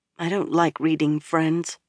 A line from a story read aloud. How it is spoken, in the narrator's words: muttered